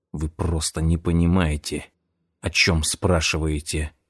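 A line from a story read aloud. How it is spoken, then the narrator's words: Whisper. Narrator (Russian): прошептал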